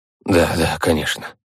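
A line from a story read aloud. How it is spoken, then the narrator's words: Mutter. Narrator (Russian): пробормотал он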